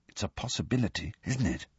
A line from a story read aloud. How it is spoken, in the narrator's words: said Harry, dropping his voice